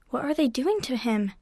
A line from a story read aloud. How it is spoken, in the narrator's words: croaked